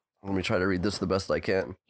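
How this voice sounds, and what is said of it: Sick, congested voice. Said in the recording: “In my sick voice.”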